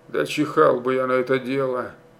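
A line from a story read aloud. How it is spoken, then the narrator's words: Quiet speech. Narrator (Russian): Тихо сказал он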